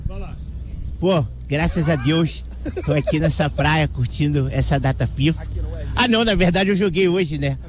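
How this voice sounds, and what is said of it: Imitates another person's voice. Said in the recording (Portuguese): “Pede uma imitação pra ele aí ... São boas ... Do Flamengo ... Pedro!”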